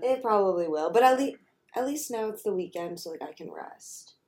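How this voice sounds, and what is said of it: Slightly raspy, sick-sounding voice. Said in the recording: “I'm just tired and my voice is a little rasp. ... You definitely sound sick.”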